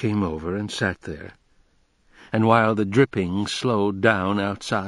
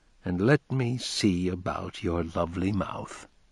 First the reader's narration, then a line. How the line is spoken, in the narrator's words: said softly